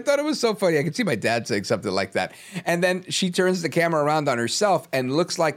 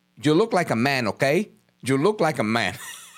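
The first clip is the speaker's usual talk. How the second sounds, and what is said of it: Heavy put-on Spanish accent. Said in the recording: “With this heavy Spanish accent.”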